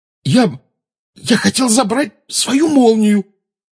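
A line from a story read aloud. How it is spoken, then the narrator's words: Hoarse wheeze. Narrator (Russian): прохрипел Гарри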